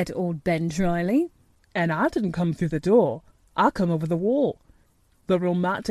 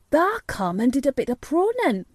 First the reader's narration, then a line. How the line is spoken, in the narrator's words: cried Dickon